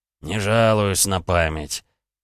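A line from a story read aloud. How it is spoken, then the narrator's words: Dull, muffled voice. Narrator (Russian): проговорил Алексей как-то глухо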